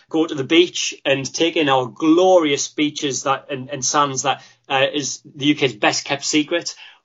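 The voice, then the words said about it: Sunderland regional English accent. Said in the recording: “reflective of my accent, my favourite city is my home city of Sunderland”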